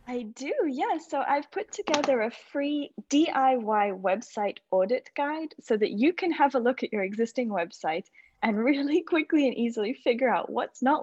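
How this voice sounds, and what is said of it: Beautiful accent. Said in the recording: “your beautiful accent”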